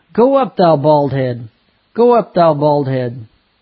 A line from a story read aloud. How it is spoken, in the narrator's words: They mocked